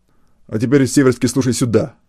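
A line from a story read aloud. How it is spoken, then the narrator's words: Rough, abrupt. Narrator (Russian): грубо сказал Глебов, резко перейдя на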